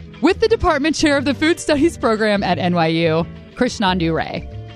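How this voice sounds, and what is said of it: Usual voice. Nothing is said of it.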